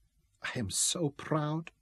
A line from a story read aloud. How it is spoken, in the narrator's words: she whispered